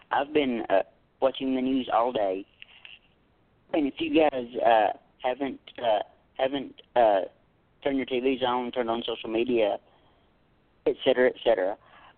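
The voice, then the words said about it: Ragged, tired voice. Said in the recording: “my voice sounds a little ragged and a little tired”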